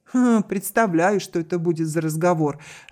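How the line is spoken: Laughing. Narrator (Russian): рассмеялась Баррингтон

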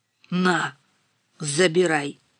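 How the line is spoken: Through gritted teeth. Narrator (Russian): процедил Толян

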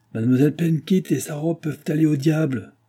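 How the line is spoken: Clerk, defiant exclamation. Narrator (French): s'écria le commis avec un ton de défi

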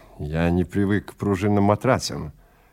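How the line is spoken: Grumbled. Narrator (Russian): проворчал Симс

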